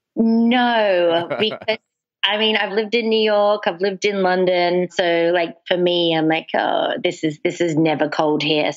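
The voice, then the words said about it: Mixed Australian-English accent. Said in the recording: “Your accent, are you Australian? ... a little bit of everything”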